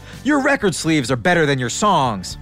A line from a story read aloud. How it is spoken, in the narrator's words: David the nerd screams after him